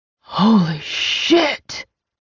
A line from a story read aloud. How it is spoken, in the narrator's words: Rain whispered